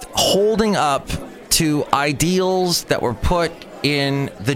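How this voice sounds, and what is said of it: Usual voice. Nothing is said of it.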